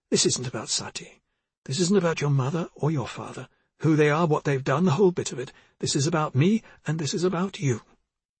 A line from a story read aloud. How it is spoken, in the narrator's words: she quickly said